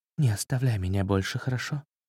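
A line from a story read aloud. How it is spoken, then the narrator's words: Soft whisper. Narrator (Russian): Она тихонько прошептала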